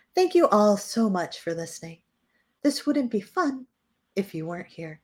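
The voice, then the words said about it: Professional NPR announcer voice. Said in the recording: “Let me try to do a professional NPR voice.”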